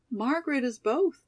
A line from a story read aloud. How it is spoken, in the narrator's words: exclaimed Molly loyally